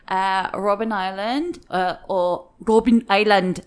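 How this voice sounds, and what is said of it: Poor put-on South African accent. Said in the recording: “sorry for my horrific South African Afrikaans accent there.”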